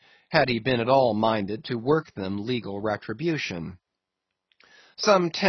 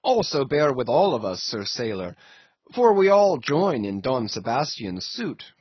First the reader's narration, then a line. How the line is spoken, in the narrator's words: cried the company, with exceeding interest